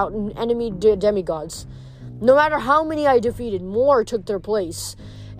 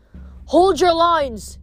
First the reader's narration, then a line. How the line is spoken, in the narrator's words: Katie Gardner shouted, somewhere off to my left